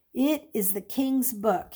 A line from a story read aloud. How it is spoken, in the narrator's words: he said with a tone of reverence in his voice